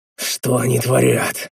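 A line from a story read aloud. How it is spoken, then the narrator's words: Muttering to oneself. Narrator (Russian): Сам себе пробормотал я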